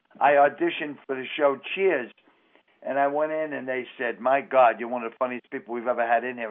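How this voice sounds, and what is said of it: Strong Boston accent. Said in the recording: “You don't sound like anybody on the show. ... this is what we sound like in Boston ... if you can drop the accent”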